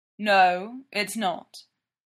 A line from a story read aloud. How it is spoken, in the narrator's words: Derek says